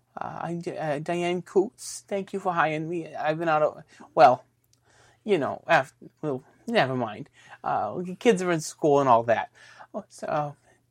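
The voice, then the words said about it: Bad put-on New Jersey woman's accent. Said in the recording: “She wants it to be a New Jersey woman's accent... this terrible accent”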